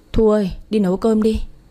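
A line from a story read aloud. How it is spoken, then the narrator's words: Sighing. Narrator (Vietnamese): Quân thở dài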